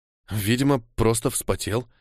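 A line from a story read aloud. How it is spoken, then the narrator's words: Reassuring oneself. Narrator (Russian): успокоил я себя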